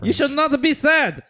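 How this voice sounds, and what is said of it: Put-on German accent. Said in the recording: “You gotta do it in a German accent ... So you're the German recipient”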